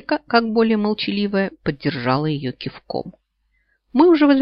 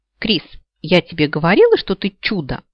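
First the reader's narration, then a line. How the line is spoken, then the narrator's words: Cheerful declaration. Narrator (Russian): весело заявила Савита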